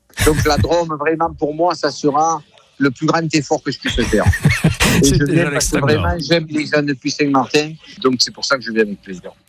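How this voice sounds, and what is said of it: Southern French accent. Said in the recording (French): “l'accent de Marseille? ... Du sud, ouais, du sud. ... vive l'accent de Patrick Bosseau, pas forcément l'accent marseillais”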